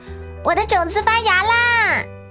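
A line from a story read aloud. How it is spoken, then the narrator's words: Loud eager shout. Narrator (Chinese): 威尔利特已经抢先大声叫道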